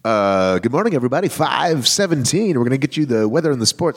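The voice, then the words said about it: Morning FM radio DJ voice. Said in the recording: “the morning FM voice”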